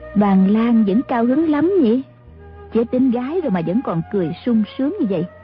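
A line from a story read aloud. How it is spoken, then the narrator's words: Smiling woman. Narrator (Vietnamese): Mã Phu Nhân mỉm cười nói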